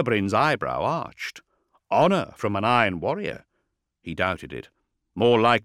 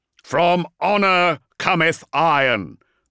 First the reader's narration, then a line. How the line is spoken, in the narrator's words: warsmith bellowed